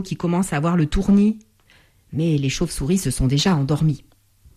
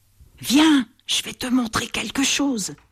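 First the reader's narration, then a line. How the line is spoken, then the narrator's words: Whisper. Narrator (French): chuchote Bat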